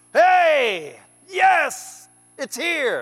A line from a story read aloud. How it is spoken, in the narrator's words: all Israel gave a mighty shout